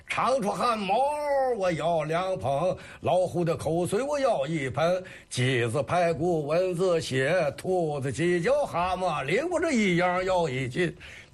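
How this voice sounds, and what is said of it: Recites with Shandong accent flavor. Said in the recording (Chinese): “他这有这种山东味了。”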